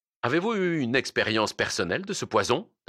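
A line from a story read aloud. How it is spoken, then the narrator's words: Plain question. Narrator (French): demanda-t-il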